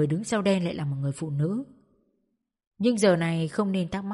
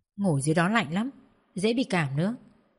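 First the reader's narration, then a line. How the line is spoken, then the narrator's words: Soft. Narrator (Vietnamese): Trang khẽ nói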